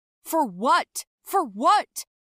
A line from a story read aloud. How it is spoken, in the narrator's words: he shouted after me